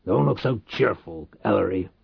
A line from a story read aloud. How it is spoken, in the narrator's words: Reich growled